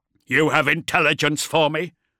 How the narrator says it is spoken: Beaumont snarled

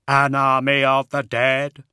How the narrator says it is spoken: Brother Attias said in his hollow, synthetic voice

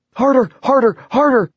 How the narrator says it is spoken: she was reduced to yelling

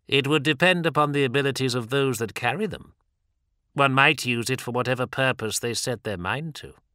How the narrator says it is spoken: said Erebus coldly

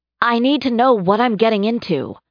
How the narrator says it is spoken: raising her voice, she added

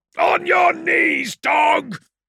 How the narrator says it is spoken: bellowed Newman

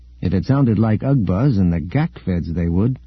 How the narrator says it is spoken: Luke said

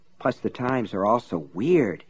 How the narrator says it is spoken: he muttered

